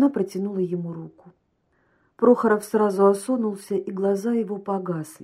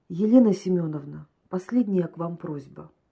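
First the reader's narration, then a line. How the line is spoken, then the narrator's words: Hollow, muffled voice. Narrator (Russian): глухим голосом сказал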